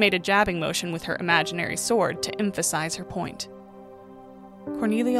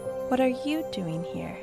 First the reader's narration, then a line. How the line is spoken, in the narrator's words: she'd spoken softly